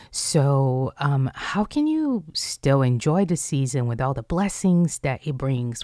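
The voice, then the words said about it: Tired-sounding voice. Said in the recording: “I don't know if you can tell by my voice, but it's also a tiring season.”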